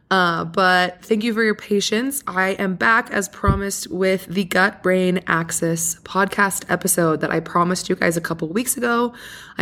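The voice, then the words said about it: Raspy, hoarse voice. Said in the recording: “my voice is a little raspy ... I have been so sick ... I definitely sound like I have a wild smoking problem.”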